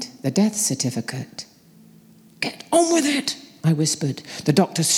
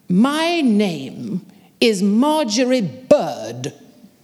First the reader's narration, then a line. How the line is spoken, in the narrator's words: she bellowed